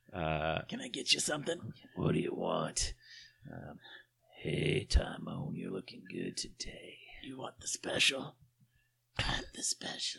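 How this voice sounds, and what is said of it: Raspy heavy-smoker character voice. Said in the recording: “Mother sounds like she's smoked 2 packs of Marlboro Reds for the last 50 years ... you get to do the voices.”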